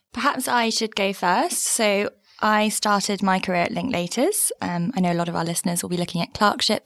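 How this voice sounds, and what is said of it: British accent. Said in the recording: “they are both British produced podcasts, and as I'm not sure our listeners can tell, you've both got accents.”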